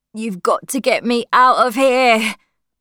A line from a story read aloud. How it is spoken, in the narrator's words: the boy said, and groaned again